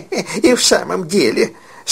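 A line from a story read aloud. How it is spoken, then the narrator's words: Laughing agreement. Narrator (Russian): смеясь, поддакнула миссис Дилбер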